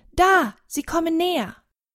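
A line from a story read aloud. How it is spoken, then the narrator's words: Sudden shout. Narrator (German): Plötzlich schreit Tonne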